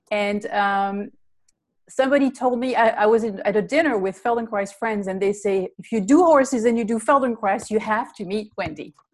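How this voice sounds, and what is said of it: Belgian accent. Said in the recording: “I'm originally from Belgium. That's the funny accent that you hear.”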